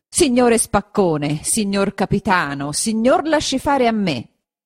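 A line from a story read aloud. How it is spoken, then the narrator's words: Shouting. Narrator (Italian): gli disse o gli gridò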